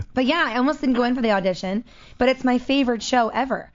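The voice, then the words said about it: Hoarse, strained voice. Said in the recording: “I'm losing my voice right now ... I was choking earlier.”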